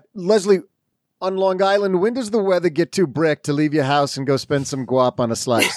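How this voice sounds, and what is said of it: Put-on Long Island accent. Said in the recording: “Are you making fun of my Long Island accent? You got that G perfect.”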